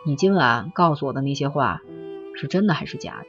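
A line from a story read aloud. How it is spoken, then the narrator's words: Soft question. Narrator (Chinese): 他轻声的把握机会的问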